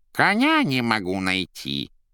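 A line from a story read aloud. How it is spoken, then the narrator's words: Muffled, fake voice. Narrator (Russian): Задушенным и фальшивым голосом отозвался из-под кровати кот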